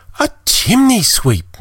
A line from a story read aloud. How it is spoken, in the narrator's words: Marianne exclaimed